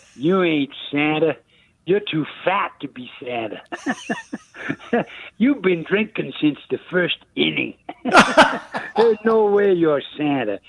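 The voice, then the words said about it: Deep Bronx accent. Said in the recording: “with the deep Bronx accent”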